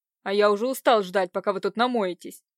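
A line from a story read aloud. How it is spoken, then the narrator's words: Angry blurt. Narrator (Russian): выпалил зло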